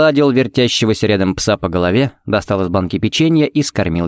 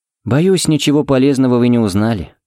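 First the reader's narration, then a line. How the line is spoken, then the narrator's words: Sighing. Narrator (Russian): вздохнул Фернандес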